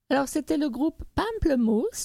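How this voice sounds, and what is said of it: Slight English-speaker accent. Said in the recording (French): “j'essaye de le dire avec un petit accent anglophone”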